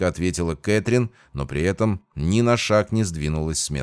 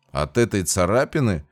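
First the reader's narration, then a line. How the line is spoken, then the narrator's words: Mocking question. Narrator (Russian): насмешливо уточнил я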